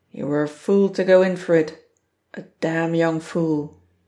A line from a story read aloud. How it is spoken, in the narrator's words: you'll hardly hear him chuckling